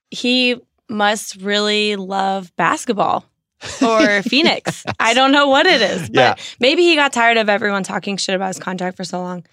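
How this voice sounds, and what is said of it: Hoarse voice with heavy vocal fry. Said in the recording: “my voice is gone ... more vocal fry than usual for me ... It's very sultry”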